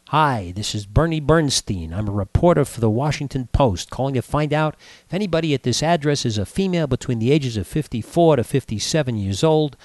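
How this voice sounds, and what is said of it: Northeastern American accent. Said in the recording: “northeastern accent”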